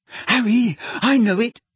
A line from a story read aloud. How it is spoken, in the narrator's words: someone panted from behind him